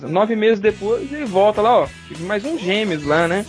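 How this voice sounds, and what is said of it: Put-on Portuguese accent. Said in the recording (Portuguese): “vocês dois fazendo sotaque de português”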